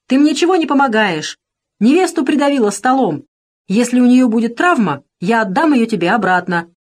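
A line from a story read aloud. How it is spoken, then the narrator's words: Shouting. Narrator (Russian): он крикнул Алисе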